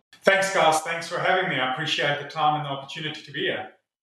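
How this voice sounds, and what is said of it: South African accent. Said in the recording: “I detect an accent over there ... originally from South Africa”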